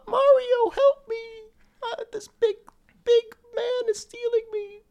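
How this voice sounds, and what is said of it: Imitated Princess Peach character voice. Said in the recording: “your Peach impression”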